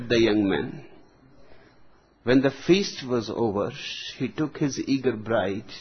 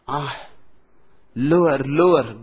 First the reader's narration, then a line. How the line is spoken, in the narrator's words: groaned the girl